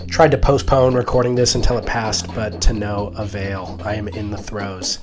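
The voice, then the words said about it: Sick voice from a cold. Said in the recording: “my voice sounds weird, it's because I'm persevering a cold”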